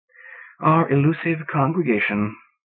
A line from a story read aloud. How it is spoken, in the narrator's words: sighed the Reverend Smith